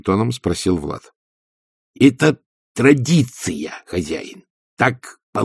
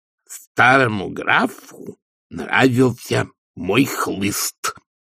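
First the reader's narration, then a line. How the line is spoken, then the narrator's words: Creaky voice. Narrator (Russian): сказал Игорь скрипучим голосом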